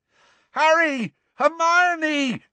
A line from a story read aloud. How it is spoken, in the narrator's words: yelled Ron, looking quite beside himself